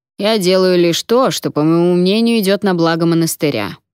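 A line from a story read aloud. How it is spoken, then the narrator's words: Grumbling. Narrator (Russian): проворчал Уолтер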